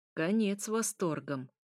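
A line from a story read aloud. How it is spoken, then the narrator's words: Detached tone. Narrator (Russian): произнес привычным отрешенным тоном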